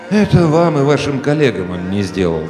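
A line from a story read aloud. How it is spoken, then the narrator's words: Sighing. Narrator (Russian): вздохнул Иван Петрович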